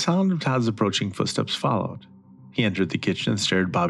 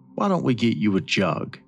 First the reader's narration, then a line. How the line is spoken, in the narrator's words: said Todd